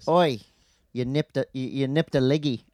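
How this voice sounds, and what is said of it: Put-on Australian accent. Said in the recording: “Do you have to say it with an Australian accent?”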